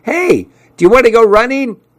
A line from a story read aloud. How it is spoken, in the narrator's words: he yelled out at me